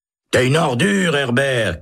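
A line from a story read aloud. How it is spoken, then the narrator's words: Shouting. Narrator (French): crie Holt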